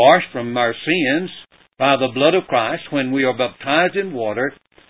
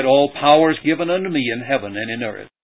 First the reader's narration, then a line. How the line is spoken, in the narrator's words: he said